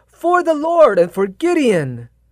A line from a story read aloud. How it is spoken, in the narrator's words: shout in a loud voice saying